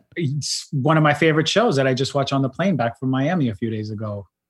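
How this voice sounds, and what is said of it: Strong New York Queens accent. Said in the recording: “I'm sensing like a New York accent ... It's hardcore New York. It's definitely Queens. ... you sound like the guys from Entourage a little bit.”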